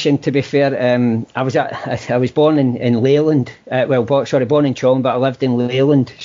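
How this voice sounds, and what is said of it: Scottish accent. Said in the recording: “despite the accent, were you born across the border?”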